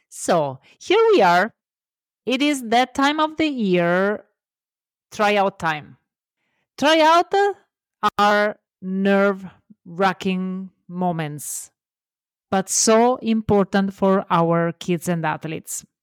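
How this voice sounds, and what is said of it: Italian accent. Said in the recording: “I'm Italian, love my accent”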